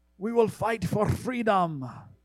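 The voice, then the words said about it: Poor put-on Scottish accent. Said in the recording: “That was a terrible Scottish accent. It sounded more Swedish than anything.”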